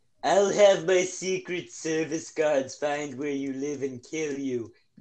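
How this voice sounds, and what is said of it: Imitates another person's voice. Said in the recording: “my impression of him”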